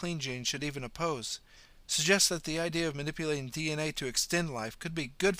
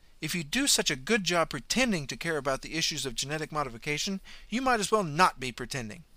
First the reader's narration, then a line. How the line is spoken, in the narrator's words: Carrie snapped angrily